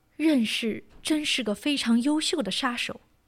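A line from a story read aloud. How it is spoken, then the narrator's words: Sighing. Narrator (Chinese): 聂隐娘不禁叹息说道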